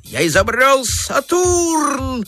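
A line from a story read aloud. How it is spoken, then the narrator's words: Shouting while struggling. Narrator (Russian): крикнул, отбиваясь изо всех сил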